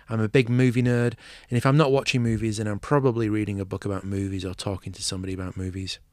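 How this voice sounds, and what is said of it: English Manchester accent. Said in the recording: “I'm English, which you might be able to tell from my accent, originally from Manchester”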